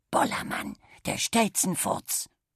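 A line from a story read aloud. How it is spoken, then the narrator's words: Whispering. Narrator (German): Und Kali flüsterte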